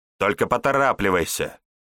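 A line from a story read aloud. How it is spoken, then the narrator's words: Woman barking back. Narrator (Russian): Рявкнула в ответ женщина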